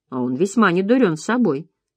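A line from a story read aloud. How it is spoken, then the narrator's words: Plain. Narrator (Russian): сказала Лизбет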